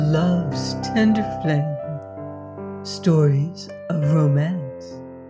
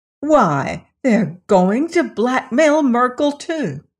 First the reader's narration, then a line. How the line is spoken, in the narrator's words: Lilas exclaimed